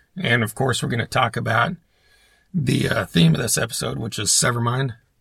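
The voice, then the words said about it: Strained voice, fading in and out. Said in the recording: “Excuse my voice. It's kind of coming and going, it feels like.”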